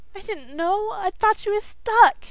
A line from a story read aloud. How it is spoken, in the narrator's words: wailed again